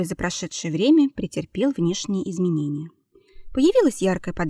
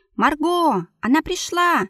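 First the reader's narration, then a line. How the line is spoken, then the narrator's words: Shouted. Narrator (Russian): прокричала недавняя знакомая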